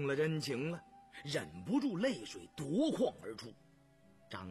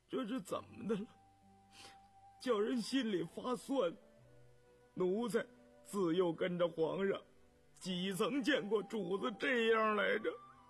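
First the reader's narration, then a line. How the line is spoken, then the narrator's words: Moved, choked voice. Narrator (Chinese): 动了情，眼圈一红，哽咽着嗓子说道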